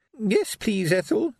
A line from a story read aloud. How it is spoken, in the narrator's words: quavered a tiny, frightened voice